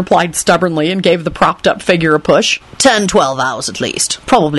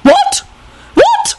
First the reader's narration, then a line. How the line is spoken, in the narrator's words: Lady Fanshawe yelped